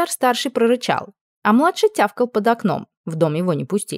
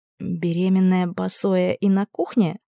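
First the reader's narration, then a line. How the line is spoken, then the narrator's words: Whispered question. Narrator (Russian): спросила шепотом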